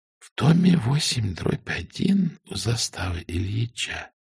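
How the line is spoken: Whispered reading. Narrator (Russian): читала женщина шепотом

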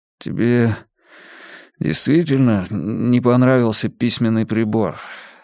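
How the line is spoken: Strained, forced out. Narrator (Russian): сумел выдавить я наконец

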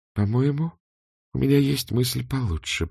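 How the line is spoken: Muttering. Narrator (Russian): пробормотала она

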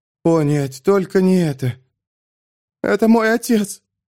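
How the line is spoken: Hoarse croak. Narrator (Russian): прохрипела Кара

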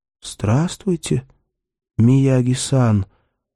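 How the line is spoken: Quiet. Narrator (Russian): тихо сказал Бергман

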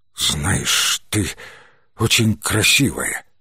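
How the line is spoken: Hoarse voice. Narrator (Russian): хриплым голосом произнес он

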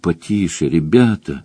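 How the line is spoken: Pleading. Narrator (Russian): взмолился ворон

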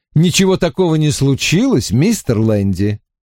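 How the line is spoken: Cheerful voice. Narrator (Russian): бодрым голосом произнес я

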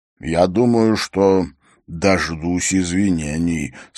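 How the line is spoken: Plain. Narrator (Russian): сказал он

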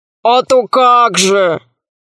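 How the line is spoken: Booming laughter. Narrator (Russian): ответил Громозека и захохотал так, что космическая связь отключилась

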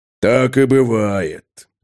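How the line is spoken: Solemn. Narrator (Russian): торжественно кивнул Тулгорд Мудрый

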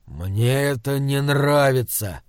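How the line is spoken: Grumbling. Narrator (Russian): проворчал Тор

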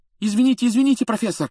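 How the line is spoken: Rapid chatter. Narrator (Russian): затараторил Джордан

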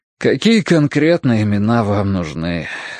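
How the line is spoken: Crushed, dejected question. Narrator (Russian): спросил Эштон убитым голосом

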